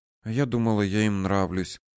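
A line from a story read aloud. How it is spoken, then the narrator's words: Muttering. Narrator (Russian): пробормотала она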